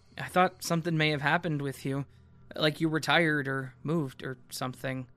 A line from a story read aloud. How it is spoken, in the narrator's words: I stutter and say